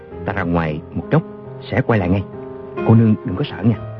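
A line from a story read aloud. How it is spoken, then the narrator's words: Soft gentle voice. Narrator (Vietnamese): Chàng khẽ bảo A Châu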